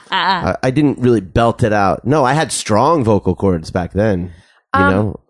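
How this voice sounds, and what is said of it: Hoarse, fading voice. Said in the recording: “I'm losing my voice weirdly, but I don't feel sick... you just suddenly start losing your voice”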